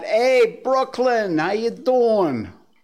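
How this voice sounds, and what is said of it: Attempted Brooklyn accent. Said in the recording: “I don't know if that's a Brooklyn accent or not, but it's close.”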